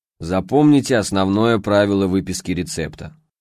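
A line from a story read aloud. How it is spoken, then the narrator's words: Hoarse bass voice. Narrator (Russian): произнес своим неподражаемым хриплым басом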